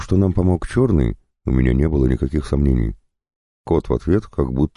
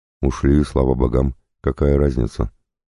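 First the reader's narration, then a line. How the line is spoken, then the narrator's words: Tired. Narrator (Russian): устало ответила Марина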